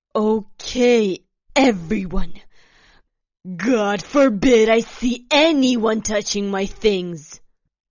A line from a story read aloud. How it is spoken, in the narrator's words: announced loudly